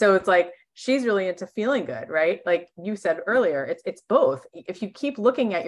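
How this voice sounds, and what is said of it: Usual voice. Nothing is said of it.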